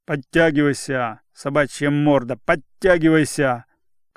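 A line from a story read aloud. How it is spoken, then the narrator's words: Officer shouting. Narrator (Russian): кричал унтер-офицер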